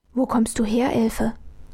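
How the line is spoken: Puzzled whisper. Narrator (German): flüsterte Armele verdutzt

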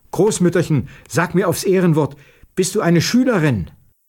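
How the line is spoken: Calling out. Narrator (German): rief der Alten zu

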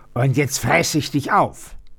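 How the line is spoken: Roared. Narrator (German): brüllte

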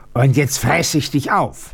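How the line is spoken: Roaring. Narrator (German): brüllte

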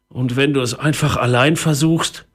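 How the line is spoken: Weak, tired voice. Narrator (German): fragte Papa mit matter Stimme

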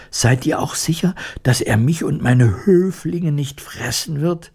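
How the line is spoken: Anxious mouse queen asking. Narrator (German): Die Mäusekönigin … fragte ängstlich

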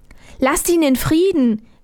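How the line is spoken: Calling out. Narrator (German): rief Armerle

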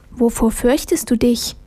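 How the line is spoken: Soft voice from darkness. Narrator (German): ertönte es leise aus der Dunkelheit

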